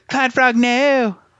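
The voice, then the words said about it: Poor cartoon character voice impression. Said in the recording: “my like worst Cartman impression”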